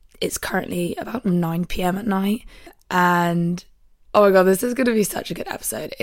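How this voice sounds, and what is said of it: Croaky, partly lost voice. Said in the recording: “I've kind of lost my voice, hence the croakiness.”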